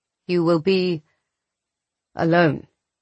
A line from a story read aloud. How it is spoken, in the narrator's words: Radu said, his voice sad, but firm